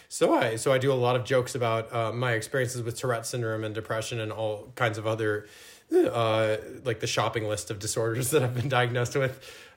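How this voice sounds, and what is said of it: Slight foreign accent. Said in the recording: “I was getting a hint of an accent”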